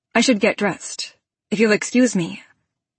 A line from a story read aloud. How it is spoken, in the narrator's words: I say evenly